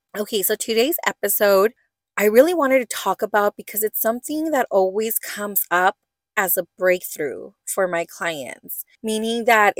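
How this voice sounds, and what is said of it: Voice cutting in and out. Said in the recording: “I have some sort of voice, thing. My voice keeps coming in and out ... I don't know if I have an infection or what, but I can hear like my voice coming in and out.”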